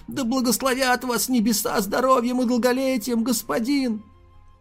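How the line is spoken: Tearful quavering old bleat. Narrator (Russian): У старика слезы из глаз полились ручьем, и он дребезжащим голосом проблеял

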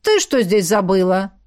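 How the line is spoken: Rude question. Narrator (Russian): спросил грубо

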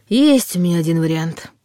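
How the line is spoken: Sighing. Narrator (Russian): вздохнул Дементьев

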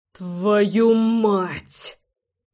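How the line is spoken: Muttered through teeth. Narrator (Russian): процедил я

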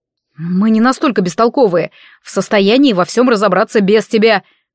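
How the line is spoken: Displeased hiss. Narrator (Russian): недовольно прошипел Нориар

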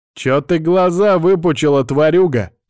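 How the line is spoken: Shouting even louder. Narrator (Russian): крикнул еще громче

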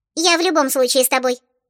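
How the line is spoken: Squeaky little girl's voice. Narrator (Russian): пропищала малышка с хвостиками

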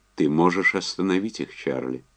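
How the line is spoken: Calm. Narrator (Russian): спокойно сказал он

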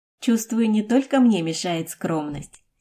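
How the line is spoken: Giggling. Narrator (Russian): хихикнула Жо Лань

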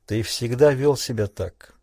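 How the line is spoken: Quiet. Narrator (Russian): тихо сказал Тунгата

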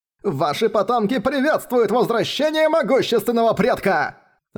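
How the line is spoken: Ecstatic shout. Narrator (Russian): восторженно прокричал Хань Даньзы

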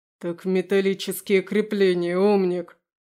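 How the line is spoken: Snapping retort. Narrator (Russian): огрызнулся Немиров

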